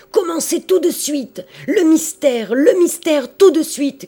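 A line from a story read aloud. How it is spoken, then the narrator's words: Crowd shouting. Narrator (French): criait le peuple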